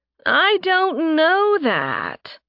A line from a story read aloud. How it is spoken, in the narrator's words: Mora whined